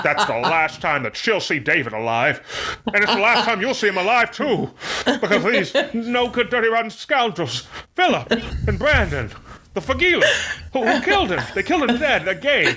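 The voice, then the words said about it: Jimmy Stewart impression. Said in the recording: “his Jimmy Stewart impression... my first time ever doing a Jimmy Stewart accent... this is kind of slapping”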